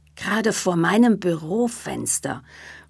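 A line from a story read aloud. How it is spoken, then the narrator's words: Horrified murmur. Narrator (German): murmelte entsetzt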